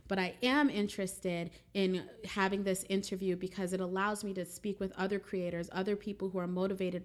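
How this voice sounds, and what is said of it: Excited, enthusiastic voice. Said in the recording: “I'm super, super excited about that, if you cannot tell from my voice.”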